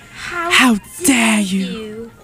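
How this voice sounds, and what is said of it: Imitates another person's voice. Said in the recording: “That's my Greta Thunberg impression.”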